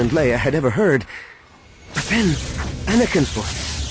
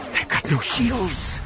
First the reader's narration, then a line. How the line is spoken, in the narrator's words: she whispered, more to herself than anyone else